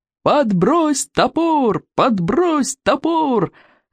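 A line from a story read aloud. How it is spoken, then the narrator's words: Cheerful yelling. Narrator (Russian): весело вопили стероиды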